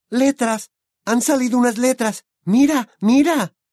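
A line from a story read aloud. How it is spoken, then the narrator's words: Exclaimed. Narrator (Spanish): Hermione exclamó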